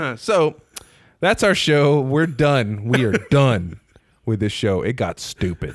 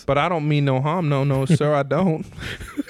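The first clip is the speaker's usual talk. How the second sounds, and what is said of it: Put-on hard-to-place accent. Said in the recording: “I don't even know what accent you're doing right now.”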